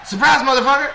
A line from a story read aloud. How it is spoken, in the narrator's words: yell